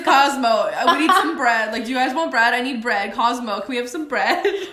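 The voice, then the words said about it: Impression of a friend ordering bread. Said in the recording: “that's such a good impersonation ... you're really good at this impersonation stuff”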